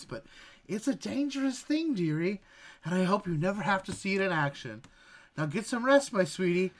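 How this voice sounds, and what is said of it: Old grandmother character voice. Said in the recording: “grandma voice.”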